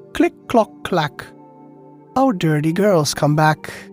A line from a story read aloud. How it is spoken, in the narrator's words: the old hen on the top of the wall … it called out